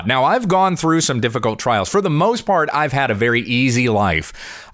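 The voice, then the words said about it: Polished radio announcer voice. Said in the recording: “you wonder where I get my radio voice from. It comes from my dad.”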